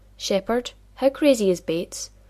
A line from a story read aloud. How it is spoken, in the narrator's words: John laughed